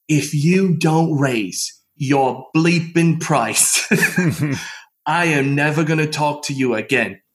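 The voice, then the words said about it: Put-on British accent. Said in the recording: “he's from England, by the way ... he's speaking with me in that British accent.”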